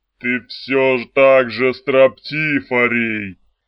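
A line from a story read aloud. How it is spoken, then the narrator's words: Muffled, hollow. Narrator (Russian): глухо отвечал Кваднон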